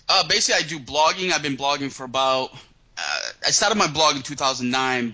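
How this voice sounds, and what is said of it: Boston accent. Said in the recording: “You from Boston, by the way? ... I can tell from the accent for sure”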